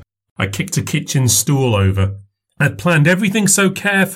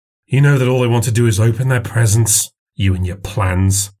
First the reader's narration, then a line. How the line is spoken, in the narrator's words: scoffed